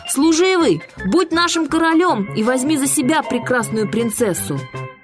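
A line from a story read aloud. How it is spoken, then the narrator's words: Shouting. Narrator (Russian): кричали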